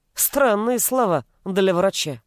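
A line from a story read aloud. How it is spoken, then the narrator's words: Wry snort. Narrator (Russian): хмыкнул Гришаев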